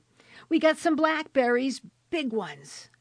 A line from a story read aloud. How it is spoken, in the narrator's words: went on shouting